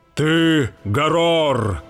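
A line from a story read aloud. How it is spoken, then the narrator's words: Exclamation. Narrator (Russian): воскликнул он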